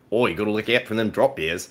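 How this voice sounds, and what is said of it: Poor put-on Australian accent. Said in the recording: “I'm at least better at it than I am with an Australian accent ... that's not even that great”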